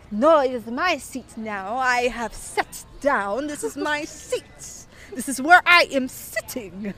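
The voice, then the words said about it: Deliberately bad put-on Italian accent. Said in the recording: “This is a terrible Italian accent. I don't even know what accent this is”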